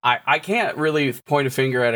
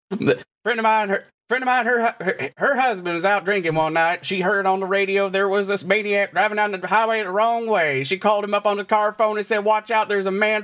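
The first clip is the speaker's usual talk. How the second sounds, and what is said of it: Fast Kentucky accent, Carl Hurley impression. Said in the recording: “a Kentucky accent ... Carl Hurley, who is a family-friendly comedian who's also a professor at Eastern Kentucky. And Carl Hurley, he talked real fast and he sounds like this.”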